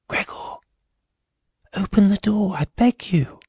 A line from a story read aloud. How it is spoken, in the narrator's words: the sister whispered